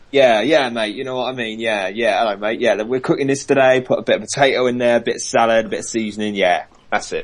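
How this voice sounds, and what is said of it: Put-on Cockney English accent. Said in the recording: “the Cockney accent, which sounds like ... Jamie Oliver accent.”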